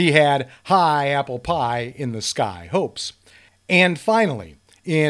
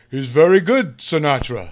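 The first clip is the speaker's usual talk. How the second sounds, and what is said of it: Imitates another person's voice. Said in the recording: “not a good Stallone imitation.”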